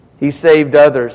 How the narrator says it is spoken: said

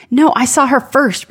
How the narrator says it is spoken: barked

